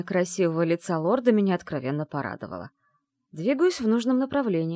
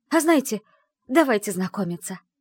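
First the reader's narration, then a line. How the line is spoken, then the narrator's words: Exclamation. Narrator (Russian): воскликнула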